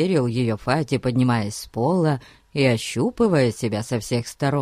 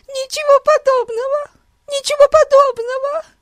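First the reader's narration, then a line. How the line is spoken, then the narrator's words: Sobbing. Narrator (Russian): рыдала Бетси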